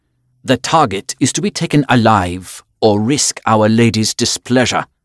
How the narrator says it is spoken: Jürgen commanded sharply

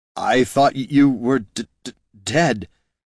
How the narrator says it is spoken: stammered Jin

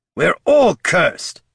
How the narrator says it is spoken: snapped the Death Knight

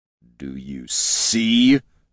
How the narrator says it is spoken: Jin snarled at Gorm

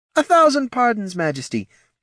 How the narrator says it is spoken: panted the lady-in-waiting

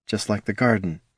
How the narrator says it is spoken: she murmured

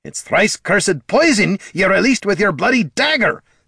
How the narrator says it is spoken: snapped Gorm

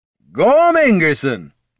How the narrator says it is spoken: Boomer hollered

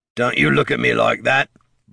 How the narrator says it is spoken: barked their captor

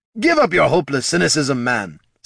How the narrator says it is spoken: snapped Captain Bothwick

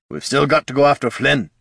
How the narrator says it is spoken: growled Gorm, his fury still burning

